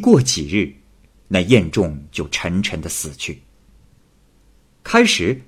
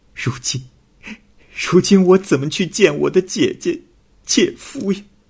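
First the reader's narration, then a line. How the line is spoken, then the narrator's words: Crying. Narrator (Chinese): 香群哭着说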